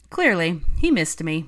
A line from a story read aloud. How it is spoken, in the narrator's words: sniffed Fred